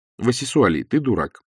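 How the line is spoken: Calm wife's reply. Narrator (Russian): спокойно ответила жена

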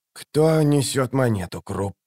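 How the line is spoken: Strangled wheeze. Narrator (Russian): сдавленно прохрипел он

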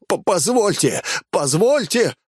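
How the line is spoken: Babbling. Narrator (Russian): продолжал лепетать он

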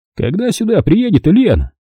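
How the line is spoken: Shouting. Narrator (Russian): крикнул он

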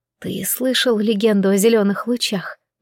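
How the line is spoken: Whisper. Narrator (Russian): прошептала я

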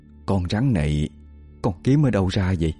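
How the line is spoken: Low trembling question. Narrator (Vietnamese): Bà Thư hạ giọng run run hỏi Tứ

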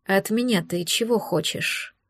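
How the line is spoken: Tired question. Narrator (Russian): Устало поинтересовался он

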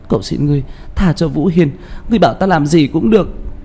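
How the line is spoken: Anguished sobbing scream. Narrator (Vietnamese): Liễu Như Như hét lên thảm thiết, gào khóc nức nở, nói với Đạo Phong

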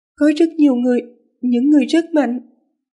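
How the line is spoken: Tired, slightly trembling voice. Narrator (Vietnamese): Tang Tang không biết vì lạnh hay vì sợ mà người nàng vẫn run rẩy nhẹ, giọng nói mỏi mệt

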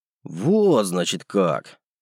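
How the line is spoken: Unctuous tone. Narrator (Russian): Елейным тоном произнес я

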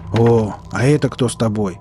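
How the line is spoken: Grumble. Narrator (Russian): проворчал Марк

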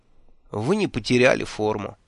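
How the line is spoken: Sighed. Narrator (Russian): вздохнул

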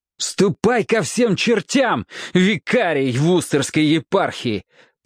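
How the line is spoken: Shout. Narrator (Russian): прокричал Роб

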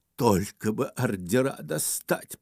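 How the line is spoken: Whisper. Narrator (Russian): прошептал Ипполит Матвеевич

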